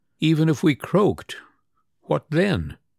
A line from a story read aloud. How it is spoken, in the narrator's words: Natasha began again, this time quietly and reflectively, and still there was not one note of complaint in her words